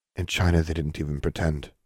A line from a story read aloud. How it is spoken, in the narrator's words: Anna said quietly